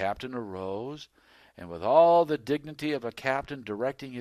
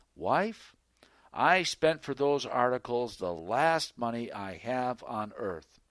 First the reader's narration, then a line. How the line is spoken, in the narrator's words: he calmly said